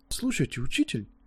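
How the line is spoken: Timid, realizing he was wrong. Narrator (Russian): робко спросил Левелис, понимая уже, что был неправ

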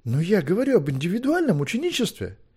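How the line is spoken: Desperate exclamation. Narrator (Russian): в отчаянии воскликнул Левелис

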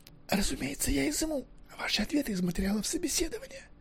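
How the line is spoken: Whispered addition. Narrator (Russian): прибавил он шепотом

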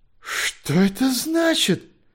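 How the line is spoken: Distorted exclaiming voice. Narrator (Russian): искаженным голосом воскликнул доктор Гленвард

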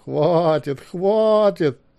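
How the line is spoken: Laughing loudly. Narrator (Russian): расхохотался Маккехт

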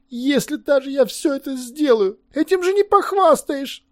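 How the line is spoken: Groaning. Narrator (Russian): простонал Левелес

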